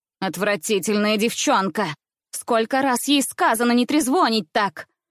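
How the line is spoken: Aunt's angry voice. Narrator (Russian): произнесла тетя сердитым голосом

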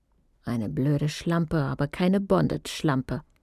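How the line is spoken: Murmur. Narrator (German): murmelte sie

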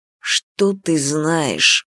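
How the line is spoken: Low quiet growl. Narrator (Russian): прорычал он тихо

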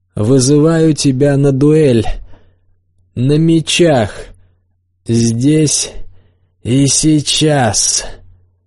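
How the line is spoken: Loud, angry. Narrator (Russian): Рикардо вышел из себя и громко сказал

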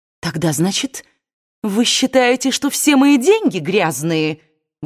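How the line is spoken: Exclaiming, growing angry. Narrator (Russian): воскликнула Скарлетт, начиная злиться

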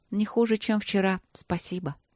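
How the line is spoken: Sigh. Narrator (Russian): снова вздохнула Светлана

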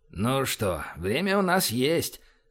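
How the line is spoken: Wry snort. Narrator (Russian): хмыкнул Байкин

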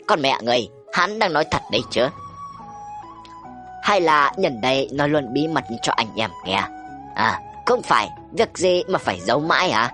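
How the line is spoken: Cold scornful laugh. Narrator (Vietnamese): Phong ca cười nhạt

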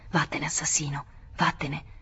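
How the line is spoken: Menacing whisper. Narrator (Italian): dicendogli sottovoce minacciosa

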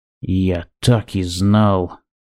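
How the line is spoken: Cold. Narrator (Russian): Он холодно произнес

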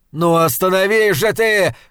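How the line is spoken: Shouting. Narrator (Russian): кричал

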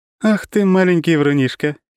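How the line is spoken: Giggling. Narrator (Russian): хихикнула Лора

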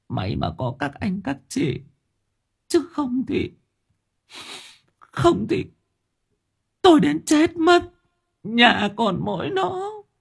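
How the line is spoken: Tearful whimper. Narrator (Vietnamese): bà cụ mếu máo

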